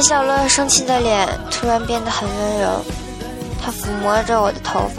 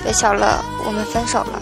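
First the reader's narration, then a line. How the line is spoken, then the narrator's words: Head down, murmuring. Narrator (Chinese): 我低下头喃喃地说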